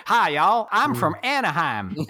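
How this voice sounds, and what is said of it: Mock Southern US accent. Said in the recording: “she sounded like she was from the deep south ... I'm gonna do my West Coast accent”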